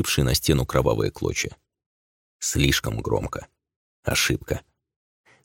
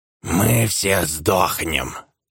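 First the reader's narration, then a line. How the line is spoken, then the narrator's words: Hoarse, uncertain. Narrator (Russian): Хрипло и неуверенно произнес один из оборванцев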